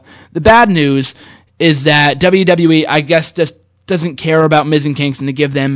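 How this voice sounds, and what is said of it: Usual voice. Nothing is said of it.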